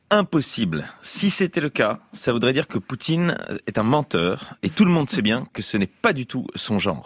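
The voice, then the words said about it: Imitates another person's voice. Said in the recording (French): “Mon imitation, vous avez reconnu ? ... François Fillon. ... Mais oui, je le tiens hyper bien.”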